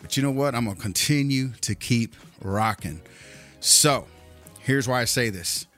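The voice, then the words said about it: Slightly out of breath. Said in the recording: “you could hear it in my voice. I'm a little bit out of breath”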